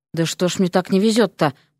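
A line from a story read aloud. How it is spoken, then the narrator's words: Muttering. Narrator (Russian): пробормотал он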